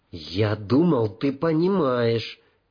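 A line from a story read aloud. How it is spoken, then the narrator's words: Hissing. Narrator (Russian): прошипел он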